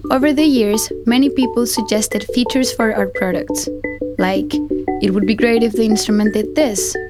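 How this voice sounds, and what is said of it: Woman with Icelandic accent. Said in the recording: “some lady with a really nice kind of Icelandic accent, which is always kind of pleasant”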